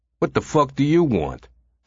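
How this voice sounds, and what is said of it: Hoarse New York accent. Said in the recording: “the hoarse voice asked. His accent was New York.”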